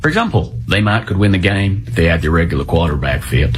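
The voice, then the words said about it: Convincing Texan accent. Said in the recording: “And as a Texan, you know, you did a good job. I'm not going to lie. And your accent, top tier.”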